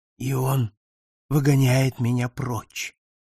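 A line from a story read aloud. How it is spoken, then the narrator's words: Whisper. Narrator (Russian): прошептал он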